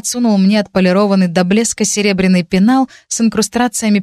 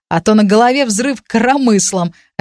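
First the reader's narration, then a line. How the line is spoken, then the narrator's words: Laughing. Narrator (Russian): рассмеялась Ютна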